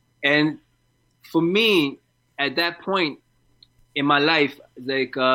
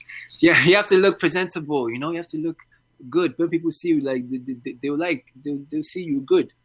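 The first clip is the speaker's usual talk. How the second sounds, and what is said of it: Imitated African-accented voice. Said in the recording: “She's African. That's why I'm doing that voice.”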